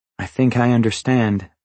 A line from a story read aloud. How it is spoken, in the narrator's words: I said